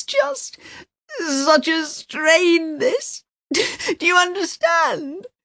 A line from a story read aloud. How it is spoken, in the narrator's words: She sobs